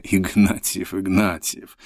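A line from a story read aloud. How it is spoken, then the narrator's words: Icy cold. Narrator (Russian): сказал ледяным тоном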